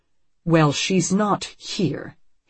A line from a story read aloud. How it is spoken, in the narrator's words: his father-in-law says coldly